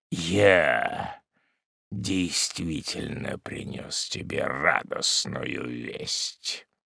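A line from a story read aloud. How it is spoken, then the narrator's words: Muffled voice. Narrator (Russian): продолжал малорослый глухим голосом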